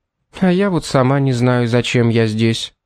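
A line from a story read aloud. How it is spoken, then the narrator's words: Sighed. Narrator (Russian): вздохнула мисс Фитцджеймс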